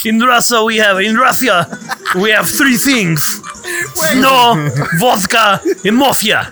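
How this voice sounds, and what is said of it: Put-on Russian accent with lisp. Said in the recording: “your Russian accent is the most spot on I've ever heard... Adding a lisp, though, would have been very hard.”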